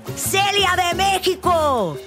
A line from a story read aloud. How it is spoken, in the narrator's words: another person yelled